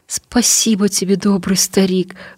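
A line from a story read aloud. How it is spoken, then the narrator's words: Trembling voice. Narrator (Russian): дрогнувшим голосом молвила она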